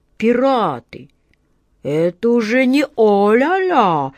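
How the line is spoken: Bewildered drawl. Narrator (Russian): растерянно протянул капитан Жан

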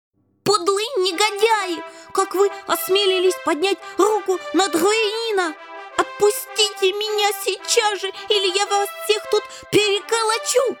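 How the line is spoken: Wild distorted scream. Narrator (Russian): не своим голосом завопил он

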